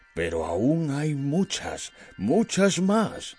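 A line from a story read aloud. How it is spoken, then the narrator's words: Storyteller voice. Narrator (Spanish): empezó a explicarme con su voz de cuentacuentos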